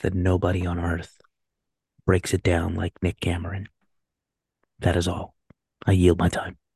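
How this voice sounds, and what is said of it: Close-mic NPR-style radio voice. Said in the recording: “I'm going to speak into the mic at this close proximity ... say in my NPR voice”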